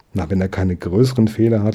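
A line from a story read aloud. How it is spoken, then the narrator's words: Laughing gentleman. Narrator (German): lachte der Herr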